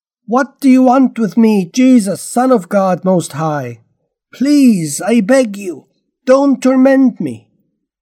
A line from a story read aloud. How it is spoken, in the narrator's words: he shouted, yelling at the top of his voice